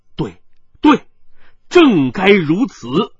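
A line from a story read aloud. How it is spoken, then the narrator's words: Loud. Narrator (Chinese): 云坑大声的说道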